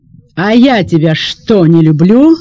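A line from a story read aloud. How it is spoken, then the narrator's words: Yelling. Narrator (Russian): заорала фигура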